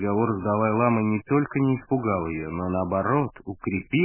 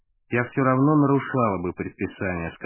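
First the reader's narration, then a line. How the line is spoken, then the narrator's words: Calm. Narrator (Russian): сказала она спокойно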